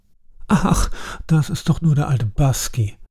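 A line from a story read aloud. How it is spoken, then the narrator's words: Laughing. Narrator (German): lachte Sir Arthur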